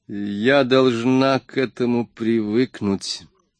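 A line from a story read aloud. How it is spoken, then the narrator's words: Calm. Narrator (Russian): заявила она спокойным тоном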